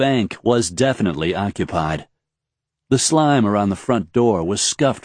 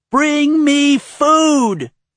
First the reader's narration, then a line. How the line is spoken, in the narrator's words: wailed a high-pitched voice